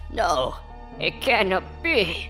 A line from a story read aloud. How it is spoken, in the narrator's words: I gasped and I said to myself